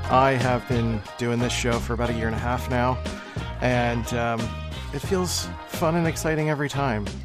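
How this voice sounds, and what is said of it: Monotone, flat voice. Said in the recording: “Don't be confused by my monotone voice. That's just my personality type.”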